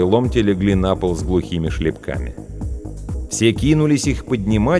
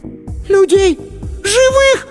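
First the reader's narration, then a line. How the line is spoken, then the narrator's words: Shrieking. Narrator (Russian): Сонька взвизгнула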